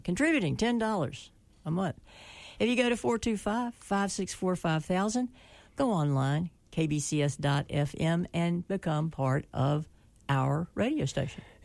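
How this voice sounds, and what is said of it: Speaker's own foreign accent. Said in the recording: “you all hear me and recognize my accent ... Contributing goes with the accent.”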